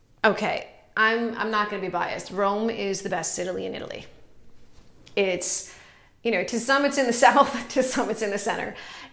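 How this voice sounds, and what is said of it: Italian-American accent. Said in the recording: “you're wondering about the accent. I'm Italian and American, born in the US”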